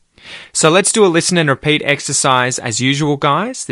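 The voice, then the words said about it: Australian accent. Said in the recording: “if you really want to try and nail your Australian accent, it's your chance to copy me as I speak”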